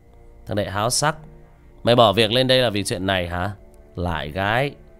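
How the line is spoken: Mocking. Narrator (Vietnamese): Khang mỉa mai

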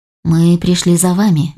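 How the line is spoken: Gentle explanation. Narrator (Russian): мягко пояснил Дворжик

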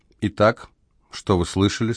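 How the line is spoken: Plain. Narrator (Russian): спросила Амелия

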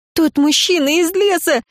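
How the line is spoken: Shouting. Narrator (Russian): закричала я

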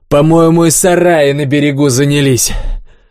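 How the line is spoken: Short laugh. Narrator (Russian): хохотнул

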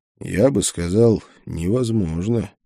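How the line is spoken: Quiet. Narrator (Russian): тихо ответил я ему

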